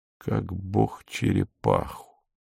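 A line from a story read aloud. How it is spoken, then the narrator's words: Muttering. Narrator (Russian): пробормотал Иван Иванович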